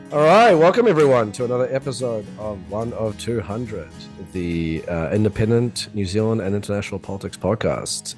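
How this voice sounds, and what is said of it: Deep sonorous late-night radio voice. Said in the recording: “sounds a bit more sonorous, perhaps a little like late night radio host ... Post-viral ... voice.”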